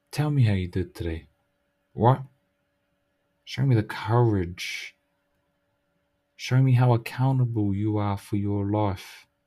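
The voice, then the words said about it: Speaks with a Māori accent. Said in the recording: “because I've got a fucking Māori accent”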